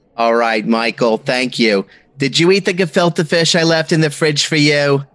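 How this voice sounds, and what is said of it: Put-on Jewish mother accent. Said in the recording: “channel your favorite Jewish mother accent”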